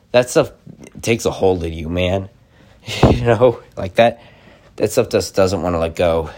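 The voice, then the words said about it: Tired, slow speech, voice cutting out. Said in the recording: “I'm extremely tired... I'm just kind of like getting really, you know, tired and just slow talking... my voice is probably cutting out too... because of my voice cutting itself out.”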